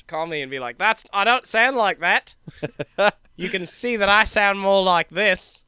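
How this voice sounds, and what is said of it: Decent put-on Australian accent. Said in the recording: “That's pretty good. That was all right, Australian.”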